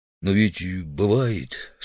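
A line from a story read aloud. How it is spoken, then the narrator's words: Timid. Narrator (Russian): сказал робко Удалов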